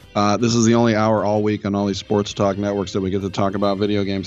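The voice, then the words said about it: Slightly hoarse voice. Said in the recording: “My voice is a little hoarse.”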